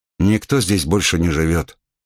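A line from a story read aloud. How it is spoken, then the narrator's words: Uncertain. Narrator (Russian): как-то неуверенно сказал Райдел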